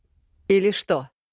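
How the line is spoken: Dry question. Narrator (Russian): сухо уточнил у него папа

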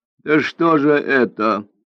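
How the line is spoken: Laughing. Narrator (Russian): рассмеялся Бяньбинь

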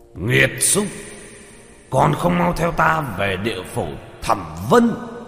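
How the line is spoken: Thunderous roar. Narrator (Vietnamese): một tiếng sấm rền quát lên

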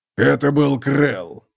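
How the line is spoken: Hoarse rasp. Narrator (Russian): прохрипел Готрек

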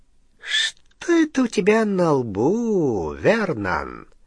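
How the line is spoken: Insinuating close breathy question. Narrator (Russian): вкрадчиво спросил Сивый, дыша прямо в ноздри Гарри

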